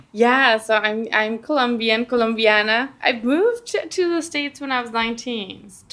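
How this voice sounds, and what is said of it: Slight Colombian Spanish accent. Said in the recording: “I hear a bit of an accent. I mean, you're Colombiana”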